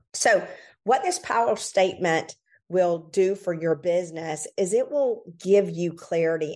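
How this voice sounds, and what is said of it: Slightly raspy, hoarse voice. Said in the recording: “My throat's a little raspy today. These colds have really been wreaking havoc”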